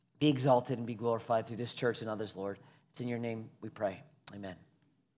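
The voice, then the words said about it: Hoarse, worn-out voice. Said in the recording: “I've been singing too much today. I'm losing my voice.”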